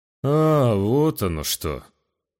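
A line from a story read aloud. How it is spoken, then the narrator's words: Disappointed drawl. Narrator (Russian): Разочарованно протянул воитель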